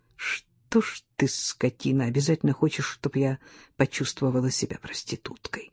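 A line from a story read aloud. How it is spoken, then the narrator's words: Unspoken thought. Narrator (Russian): подумала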